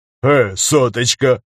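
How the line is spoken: Short laugh. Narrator (Russian): хохотнул Стас

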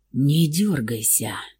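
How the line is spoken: Hoarse rasp in ear. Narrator (Russian): просипел наглец в ухо

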